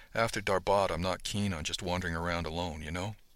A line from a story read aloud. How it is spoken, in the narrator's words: She lowered her voice a tad and said